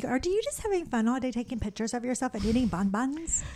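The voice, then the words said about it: Briefly puts on an accent. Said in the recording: “I don't know where that little accent came from.”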